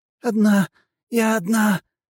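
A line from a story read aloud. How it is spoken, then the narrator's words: Wheezing, hoarse. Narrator (Russian): хрипела демоница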